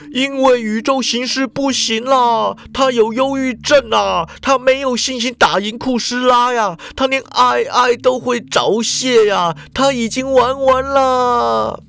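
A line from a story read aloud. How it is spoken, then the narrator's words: Anguished venting shout. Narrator (Chinese): 池田啊，神情痛苦，发泄似的叫道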